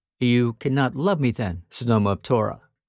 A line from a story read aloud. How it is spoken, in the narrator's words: I asked